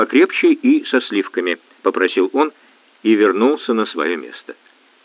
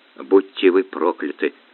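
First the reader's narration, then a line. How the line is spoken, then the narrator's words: Whispering. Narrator (Russian): шептал Успенский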